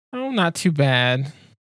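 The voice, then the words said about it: Sad, downcast tone. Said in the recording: “Why do you sound so sad?”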